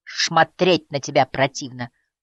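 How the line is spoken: Scornful snort. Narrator (Russian): фыркнула Доун

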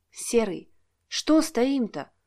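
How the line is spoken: Whisper. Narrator (Russian): шепотом произнесла Лариса

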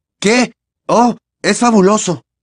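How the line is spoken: Forced cheerful exclamation, nervous, pained. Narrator (Spanish): exclamó, intentando sonreír con naturalidad, mientras el corazón seguía latiéndole a toda velocidad y la mano le dolía y le sangraba

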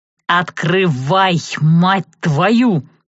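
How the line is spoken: Growl from the corridor. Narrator (Russian): Снова рыкнул из коридора голос, в котором я с трудом узнала Савелия

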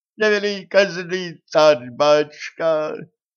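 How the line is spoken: Howling. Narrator (Russian): взвыл

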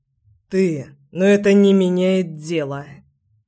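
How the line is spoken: Hoarse declaration. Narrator (Russian): заявил я сипло

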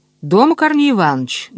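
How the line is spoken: Loud question, gentleman. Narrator (Russian): громко спросил господин

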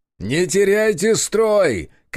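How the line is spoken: Shouting. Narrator (Russian): кричал я

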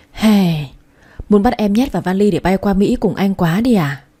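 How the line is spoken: Sighing. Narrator (Vietnamese): thở dài một tiếng

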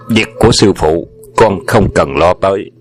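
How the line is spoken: Stern reply. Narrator (Vietnamese): Hoàng Dược Sư nghiêm giọng nó đáp

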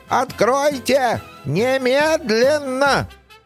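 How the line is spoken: Indistinct yelling. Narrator (Russian): невнятно орал

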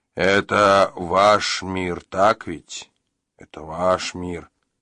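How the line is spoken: Muttering. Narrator (Russian): пробормотал

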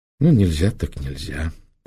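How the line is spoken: Resigned sigh. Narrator (Russian): покорно вздохнул ночной гость

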